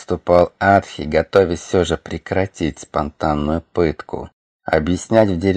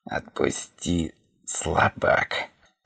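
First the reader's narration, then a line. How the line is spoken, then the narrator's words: Hoarse wheeze. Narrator (Russian): Просипел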